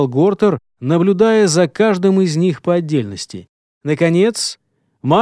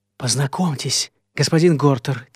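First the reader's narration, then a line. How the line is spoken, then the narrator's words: Quiet. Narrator (Russian): тихо заговорил Фернанд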